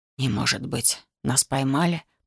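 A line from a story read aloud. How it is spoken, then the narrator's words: Whisper. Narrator (Russian): прошептал доктор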